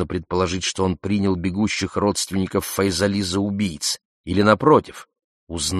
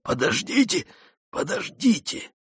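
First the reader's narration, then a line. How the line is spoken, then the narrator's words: Wounded wheezing. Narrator (Russian): Сангак, прижимая одну руку к ране, хрипел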